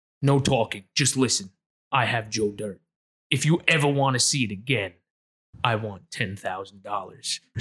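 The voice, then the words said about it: Deep Darth Vader villain voice. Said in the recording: “called in with a voice changer as Darth Vader”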